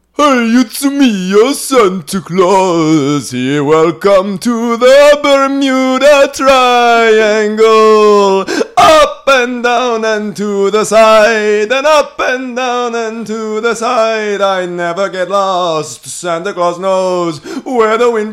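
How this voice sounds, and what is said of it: Sung Santa Claus character voice. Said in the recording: “I've been impersonating you for years now. ... If he's such a good impersonator, let's hear you sing my classic Santa song”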